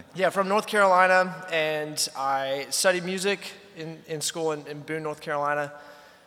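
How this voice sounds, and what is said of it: Hoarse voice. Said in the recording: “If you hear my hoarse voice, I've been trying to like speak over the volume in that showroom.”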